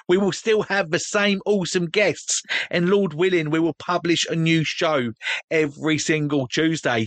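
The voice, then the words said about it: Cockney accent. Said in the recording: “my Cockney accent”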